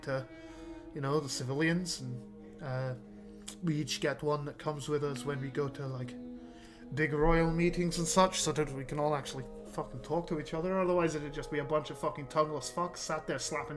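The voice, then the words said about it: Mixed Scottish, Welsh, Irish accent. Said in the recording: “Great Britain, the accent. ... You are mixing Scottish, ... Welsh, Northern ... Irish.”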